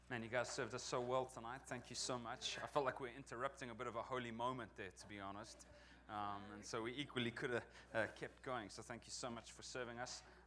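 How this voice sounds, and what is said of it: Non-local accent. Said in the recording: “as you may detect from my accent, I'm not from around here”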